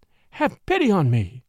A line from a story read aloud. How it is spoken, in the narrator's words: she cried